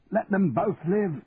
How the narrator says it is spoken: he shouted at the top of his voice

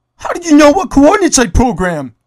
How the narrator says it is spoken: Jerry shouted

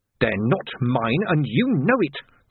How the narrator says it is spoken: the man snarled

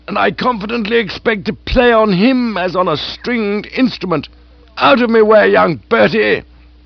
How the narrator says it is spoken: she cried

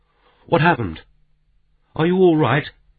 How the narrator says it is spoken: she cried out

